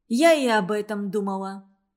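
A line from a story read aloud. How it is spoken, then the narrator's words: Calm, unflirtatious reply. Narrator (Russian): ответила Мерли спокойно, без кокетства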